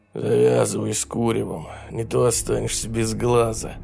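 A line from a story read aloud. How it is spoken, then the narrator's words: Hoarse rasp. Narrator (Russian): прохрипел он так, будто сам только что выкурил 6 коробок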